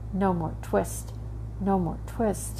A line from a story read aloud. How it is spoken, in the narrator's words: in his dreams, he mumbled